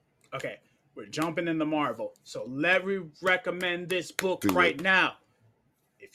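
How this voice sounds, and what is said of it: Usual voice. Nothing is said of it.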